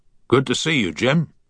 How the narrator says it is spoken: grunted the captain, as he continued to place every ounce of his weight onto the oar

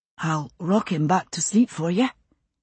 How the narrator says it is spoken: whispered in her ear

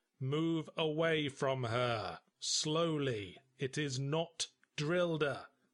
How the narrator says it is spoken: I said, slowly and clearly

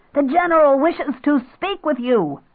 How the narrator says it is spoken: She shouted down the long, wide corridor

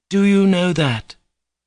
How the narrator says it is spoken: Katerina Ivanovna exclaimed suddenly with extraordinary warmth

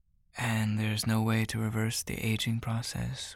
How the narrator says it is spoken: Ryder asks wistfully

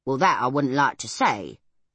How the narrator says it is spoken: said Crampfurl in his rumbling, earthy voice

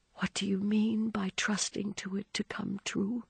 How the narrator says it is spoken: she asked, hardly above a whisper

